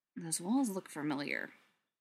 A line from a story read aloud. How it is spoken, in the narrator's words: Clint muttered